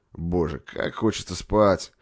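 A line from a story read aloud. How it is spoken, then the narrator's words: Moaning. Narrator (Russian): простонал Бутенев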